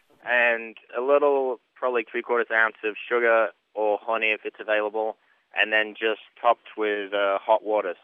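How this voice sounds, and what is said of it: Northern English and Kentucky accent mix. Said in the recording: “you have a really strange Kentucky accent. ... it's the weirdest combination ever. It's Northern England and Kentucky mix.”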